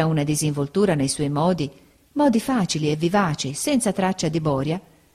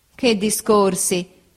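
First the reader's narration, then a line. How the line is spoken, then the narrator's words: Laughing speech. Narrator (Italian): disse ridendo Steerforth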